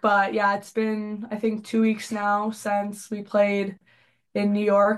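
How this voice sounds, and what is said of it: Sick-sounding voice. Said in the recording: “you can hear by my voice. I'm still a little bit sick.”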